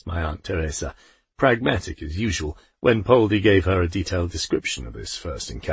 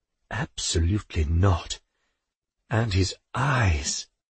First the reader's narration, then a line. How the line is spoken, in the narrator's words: sighed Poldi